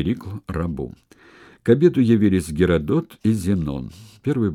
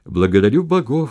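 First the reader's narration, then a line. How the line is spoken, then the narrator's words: Exclamation. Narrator (Russian): воскликнул Перикл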